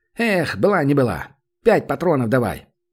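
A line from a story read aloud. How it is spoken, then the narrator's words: Wry grunt. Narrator (Russian): Данил хмыкнул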